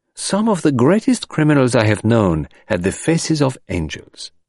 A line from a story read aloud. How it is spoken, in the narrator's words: remarked Poirot cheerfully